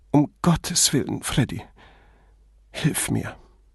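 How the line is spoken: Sobbing. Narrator (German): schluchzend

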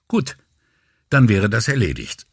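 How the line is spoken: Hasty, rather curt. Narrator (German): sagte Brunetti hastig und etwas zu schroff

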